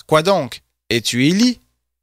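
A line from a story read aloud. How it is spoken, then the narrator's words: Plain. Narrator (French): Et il dit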